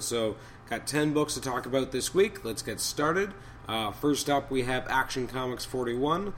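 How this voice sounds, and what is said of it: Hoarse, raspy voice from a cold. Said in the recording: “my voice is going a little ... I've been battling a bit of a cold, and it means my voice is kind of going away a little, and it's becoming a little hoarser, a little bit raspier, a little bit more old-timey radio”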